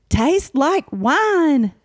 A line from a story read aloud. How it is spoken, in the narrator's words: I yelled